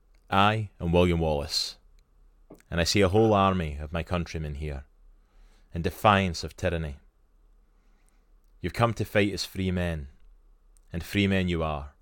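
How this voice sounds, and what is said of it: Scottish accent. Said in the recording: “Y'all love my Scottish accent ... what it's meant to sound like in a Scottish accent”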